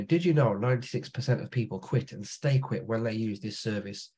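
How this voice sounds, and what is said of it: Strong regional accent. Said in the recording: “I haven't got the best voice at all. I've got a horrific accent”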